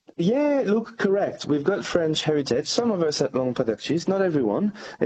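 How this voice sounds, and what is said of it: French accent. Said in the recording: “as we can tell by your accent. You've got French origins”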